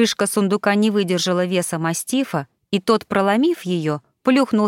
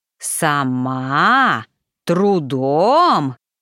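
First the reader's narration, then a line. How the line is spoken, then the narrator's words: Growled. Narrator (Russian): прорычал Паси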